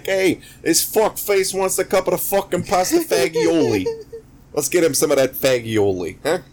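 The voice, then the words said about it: Exaggerated put-on New York accent. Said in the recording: “the shitty New York accent”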